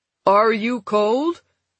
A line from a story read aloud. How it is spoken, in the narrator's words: Nielsen shouted above the roar of the wind and the noise of the engines